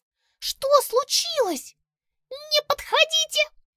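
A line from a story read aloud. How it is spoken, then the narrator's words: Hamster's squeak. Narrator (Russian): пискнул хомяк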